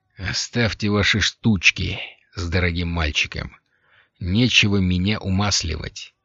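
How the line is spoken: Cold. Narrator (Russian): холодно сказал Лафайет

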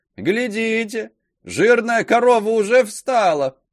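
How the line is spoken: Shouting woman. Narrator (Russian): кричала прекрасная норманка

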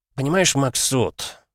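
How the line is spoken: Sigh. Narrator (Russian): вздохнул Зайцев

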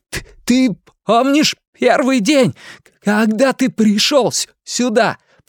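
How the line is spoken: Shouting over thunder. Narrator (Russian): прокричал Билл, перекрывая гром

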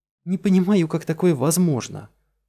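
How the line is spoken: Exclaimed. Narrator (Russian): воскликнула Фелиция

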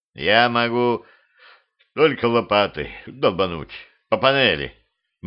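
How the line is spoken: Gloomy. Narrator (Russian): мрачно произнес

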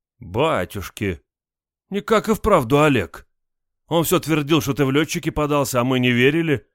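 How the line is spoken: Exclaiming. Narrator (Russian): воскликнул первый

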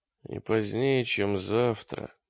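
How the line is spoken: Dull lifeless voice. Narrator (Russian): сказал Гольш потухшим голосом

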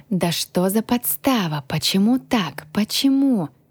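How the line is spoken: Whisper. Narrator (Russian): Прошептала я

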